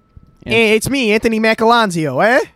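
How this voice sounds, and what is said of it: Put-on Italian accent. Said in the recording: “if he was an Italian guy.”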